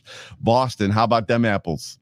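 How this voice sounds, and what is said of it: Put-on Boston accent. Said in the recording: “my best Boston accent”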